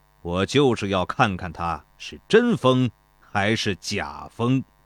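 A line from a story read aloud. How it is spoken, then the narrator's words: Cold laugh. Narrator (Chinese): 庞涓冷冷地笑道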